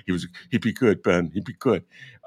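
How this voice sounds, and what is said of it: Imitates another person's voice. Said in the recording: “my terrible Pete Cunningham imitation.”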